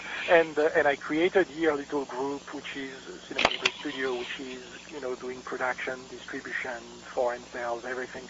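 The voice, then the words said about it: Non-native English accent. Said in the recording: “Even if you can tell that with my accent.”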